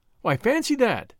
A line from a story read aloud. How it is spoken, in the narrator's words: exclaimed